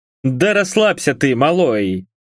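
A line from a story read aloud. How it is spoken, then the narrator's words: Chuckling. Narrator (Russian): хохотнул Бак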